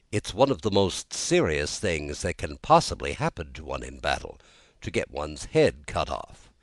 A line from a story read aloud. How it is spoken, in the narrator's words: he added very gravely